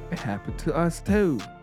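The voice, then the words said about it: Bad put-on British accent. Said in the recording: “That was a horrible British accent.”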